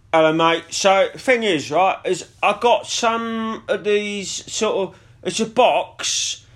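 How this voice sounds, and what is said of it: Put-on Portsmouth (Pompey) accent. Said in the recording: “Pomponian, innit? Maybe we go Pomponian with him ... So if we were going to go for a Pomponian accent, I'm gonna pitch it to you.”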